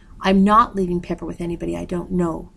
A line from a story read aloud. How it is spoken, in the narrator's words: Yuki said firmly